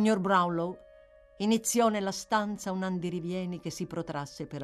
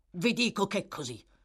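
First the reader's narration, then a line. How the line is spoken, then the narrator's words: Harsh retort. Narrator (Italian): ribatté il signor Brownlow in tono aspro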